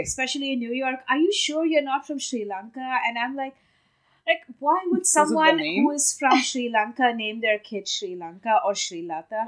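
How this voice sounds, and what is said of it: Indian accent. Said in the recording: “I'm really from India. As you should know by that accent.”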